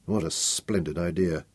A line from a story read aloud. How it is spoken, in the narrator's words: said Nicholas bitterly